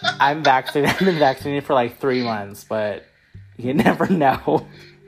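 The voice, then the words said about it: Slightly out of breath. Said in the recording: “I just got a little out of breath.”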